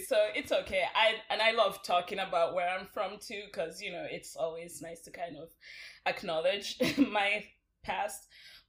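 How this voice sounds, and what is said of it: Nigerian accent. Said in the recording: “it's so obvious from my accent that I'm not from here ... I'm actually originally from Nigeria”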